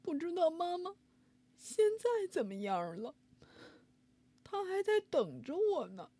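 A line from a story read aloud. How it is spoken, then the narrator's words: Crying. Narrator (Chinese): 臭臭哒哒哭着说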